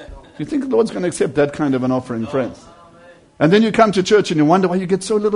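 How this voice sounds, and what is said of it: Usual voice. Nothing is said of it.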